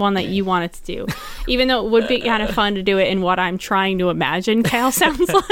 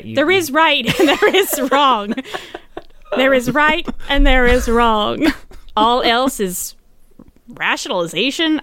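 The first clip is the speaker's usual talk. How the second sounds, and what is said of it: Imitates a game character's voice. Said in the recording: “That was my Kale impression. ... The first half was actually pretty good”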